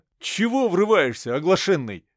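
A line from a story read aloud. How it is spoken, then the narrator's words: Feigned annoyed shout. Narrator (Russian): изображая недовольство, выкрикнул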